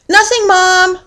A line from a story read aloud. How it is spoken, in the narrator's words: hollered Francine right back